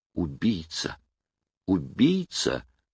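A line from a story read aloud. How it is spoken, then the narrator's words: Whispering. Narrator (Russian): шептал он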